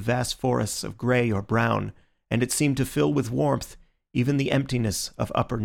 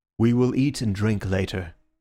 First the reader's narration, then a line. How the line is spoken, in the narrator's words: he said